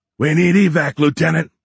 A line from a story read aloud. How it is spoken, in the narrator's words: Horn yelled